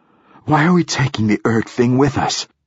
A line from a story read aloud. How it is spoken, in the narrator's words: gasped Hoyt